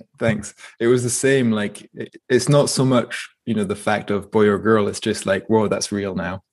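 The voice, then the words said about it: Scottish accent. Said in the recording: “Where's the accent from, man? I, I, feel like I can hear some Scottish in there.”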